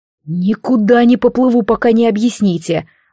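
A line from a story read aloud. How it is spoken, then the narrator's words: Angry, through gritted teeth. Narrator (Russian): зло процедил Алистар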